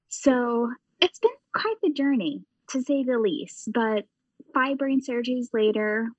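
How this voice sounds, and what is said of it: Midwestern-ish, English-ish accent. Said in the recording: “my voice now actually sounds completely different ... now I have more of a Midwestern-ish, English-ish accent”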